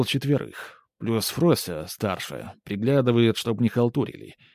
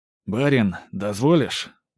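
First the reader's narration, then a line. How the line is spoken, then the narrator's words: Muffled, tired, businesslike. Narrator (Russian): Приглушенный голос Ермолая из-за закрытой двери звучал устало, но по-прежнему по-деловому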